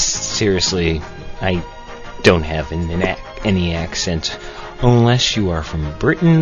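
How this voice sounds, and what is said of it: Usual voice. Nothing is said of it.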